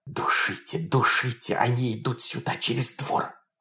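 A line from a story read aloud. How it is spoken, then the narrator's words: Many urgent whispers. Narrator (Russian): шептали со всех сторон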